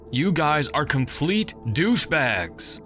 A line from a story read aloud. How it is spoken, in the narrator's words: I yelled